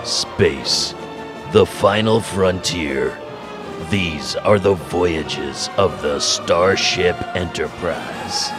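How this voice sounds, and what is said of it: Slightly altered dramatic narrator voice. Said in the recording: “I can't do the voice. I just can't. But I can change the voice a little bit.”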